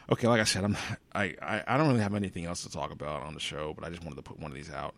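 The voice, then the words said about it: Tired-sounding voice. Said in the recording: “I sound tired.”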